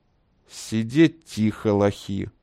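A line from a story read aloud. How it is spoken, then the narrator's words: Menacing, through teeth. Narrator (Russian): угрожающе процедил он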